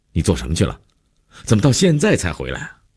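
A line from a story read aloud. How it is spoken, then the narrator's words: Annoyed demanding question. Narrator (Chinese): 姐夫一脸温怒，劈头就问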